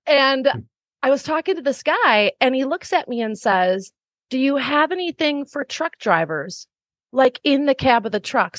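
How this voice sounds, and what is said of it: Wisconsin American accent. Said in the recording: “my small hometown in Wisconsin ... if you can't tell my accent.”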